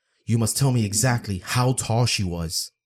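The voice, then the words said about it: Intense, serious voice. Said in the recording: “in an intense voice”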